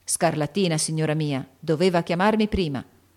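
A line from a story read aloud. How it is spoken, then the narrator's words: Gruff voice. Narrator (Italian): ha detto con voce burbera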